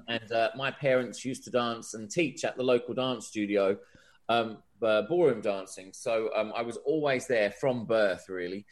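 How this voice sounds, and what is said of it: English accent with Australian twang. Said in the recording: “the weird sort of Australian twang that I have to my accent”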